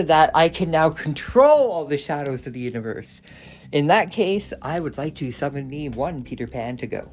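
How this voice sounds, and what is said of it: Voice audibly unwell, temporary problem. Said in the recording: “As you can hear from my voice, I've got some problems”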